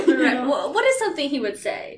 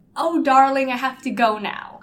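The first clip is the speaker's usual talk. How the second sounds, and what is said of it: Pompous British accent. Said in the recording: “The same pompous British guy with the mustache ... give us, like, a taste of his accent?”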